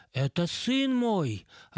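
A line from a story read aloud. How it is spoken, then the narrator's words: Joyful proclamation. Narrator (Russian): радостно провозгласил он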